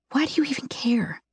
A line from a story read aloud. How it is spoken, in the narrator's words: I whisper